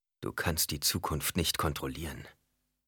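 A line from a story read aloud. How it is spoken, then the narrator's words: Preacher speaking softly. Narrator (German): sagte der Prediger leise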